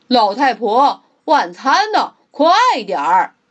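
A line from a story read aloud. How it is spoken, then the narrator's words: Loud call. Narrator (Chinese): 猪先生总是大声喊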